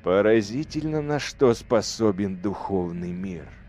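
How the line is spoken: Sigh. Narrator (Russian): вздохнул лорд-командор

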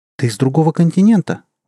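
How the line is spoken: Astonished exclamation. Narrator (Russian): воскликнула ее собеседница с таким изумлением, словно Виктория говорила о чем-то совершенно невероятном

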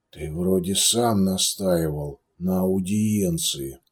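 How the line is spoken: Grumbled. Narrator (Russian): буркнул

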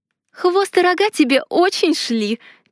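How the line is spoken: Sad remark. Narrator (Russian): Печально заметила я

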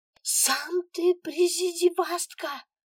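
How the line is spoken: Yelling. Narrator (Russian): орала Алена

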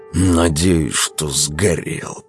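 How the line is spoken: Through gritted teeth. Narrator (Russian): процедил сквозь зубы Велес

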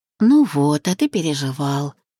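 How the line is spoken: Purring. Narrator (Russian): мурлыкнула

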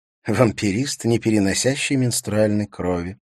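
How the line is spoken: Mutter. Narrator (Russian): пробормотала Катрина

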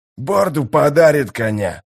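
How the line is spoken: Growled, a newcomer. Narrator (Russian): прорычал один из новоприбывших

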